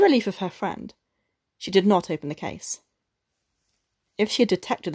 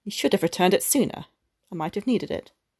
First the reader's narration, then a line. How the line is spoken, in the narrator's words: Madame Forestier said coldly